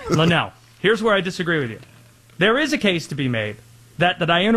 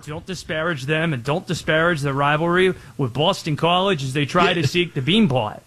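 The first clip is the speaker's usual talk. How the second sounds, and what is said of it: Attempted Boston accent. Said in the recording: “Is that you trying to do a Boston accent?”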